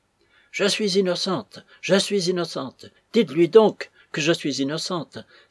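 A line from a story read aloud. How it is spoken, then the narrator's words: Crying out again. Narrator (French): s'écriait-elle de nouveau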